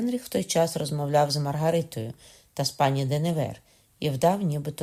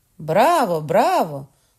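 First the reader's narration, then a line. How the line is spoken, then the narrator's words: Nobles shouting in unison. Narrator (Ukrainian): в один голос крикнули дворяни-католики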